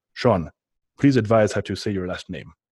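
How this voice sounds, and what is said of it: Imitated Russian accent of Pavel. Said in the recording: “in his great Russian accent, I'm reading it in his Russian accent”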